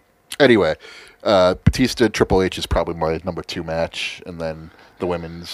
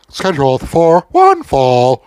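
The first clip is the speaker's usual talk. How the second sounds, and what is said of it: Imitates a wrestling ring announcer. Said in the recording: “your impression of Luke Gallows doing an impression of Howard Finkel”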